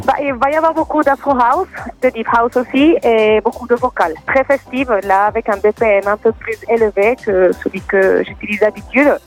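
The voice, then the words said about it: Slight foreign accent. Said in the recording (French): “ton petit accent nous fait voyager”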